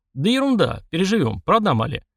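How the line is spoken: Cheerful. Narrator (Russian): весело

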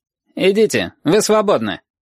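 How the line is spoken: Curt. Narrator (Russian): сказал отрывисто

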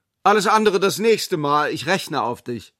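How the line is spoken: Calling back. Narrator (German): rief zurück

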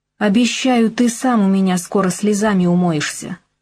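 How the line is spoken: Hateful hiss. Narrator (Russian): злобно прошипела я

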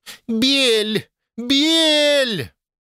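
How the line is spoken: Loud yell. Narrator (Russian): сразу завопила громко

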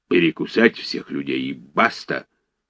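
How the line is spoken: Blurted in angry bass. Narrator (Russian): брякнул док озлобленным басом

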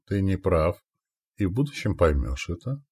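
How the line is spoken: Calm reply. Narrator (Russian): спокойно ответил

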